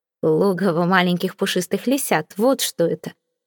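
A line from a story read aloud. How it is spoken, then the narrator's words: Snorting. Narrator (Russian): фыркнул Виконт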